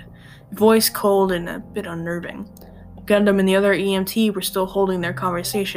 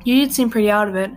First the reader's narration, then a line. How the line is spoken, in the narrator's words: chuckled